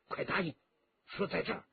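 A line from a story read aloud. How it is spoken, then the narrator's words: Low sharp command. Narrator (Chinese): 霍青松低声喝道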